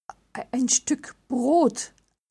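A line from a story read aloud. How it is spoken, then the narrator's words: Trembling voice. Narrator (German): antwortete mit zittriger Stimme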